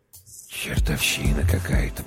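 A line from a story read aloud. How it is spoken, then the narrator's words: Whisper. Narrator (Russian): прошептал Прохор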